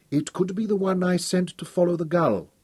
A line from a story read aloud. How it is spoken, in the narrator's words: Judith said quietly